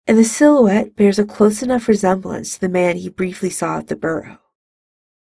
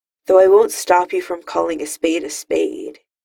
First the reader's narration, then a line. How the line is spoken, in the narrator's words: he sighs